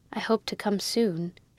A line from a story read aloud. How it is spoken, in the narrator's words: she said in a low voice